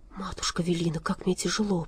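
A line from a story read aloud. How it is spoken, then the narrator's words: Whisper. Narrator (Russian): прошептал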